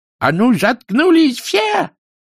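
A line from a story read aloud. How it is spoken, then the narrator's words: Yell. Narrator (Russian): завопил он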